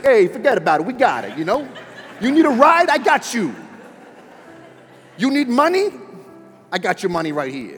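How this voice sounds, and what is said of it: New York mobster accent. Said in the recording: “in a New York mobster accent”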